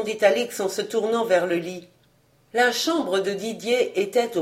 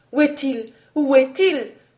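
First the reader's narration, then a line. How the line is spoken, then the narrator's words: Exclamation. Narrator (French): s'écria-t-elle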